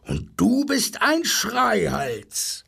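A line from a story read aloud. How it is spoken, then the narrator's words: Rhinoceros roaring. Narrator (German): brüllte das Nashorn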